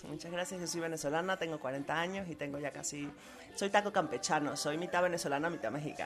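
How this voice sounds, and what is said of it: Venezuelan Spanish accent. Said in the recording (Spanish): “amo el acento venezolano”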